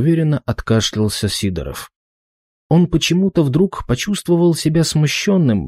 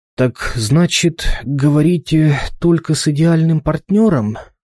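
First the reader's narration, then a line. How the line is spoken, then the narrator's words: Hesitant mumble after pause. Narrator (Russian): Через паузу все же промямлил он, ища для себя пути отступления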